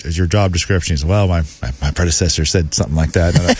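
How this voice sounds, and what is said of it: Imitates another person's voice. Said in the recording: “that was my terrible impression of Rodgers' voice ... He's got like a twang to him ... He's from Cali. He's got that California.”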